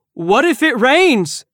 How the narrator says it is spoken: Del asks loudly

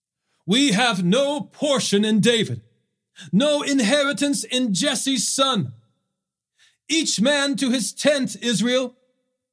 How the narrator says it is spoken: He blew the ram's horn and shouted

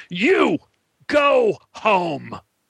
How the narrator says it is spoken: roared

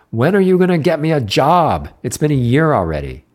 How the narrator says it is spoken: yelled at the logo

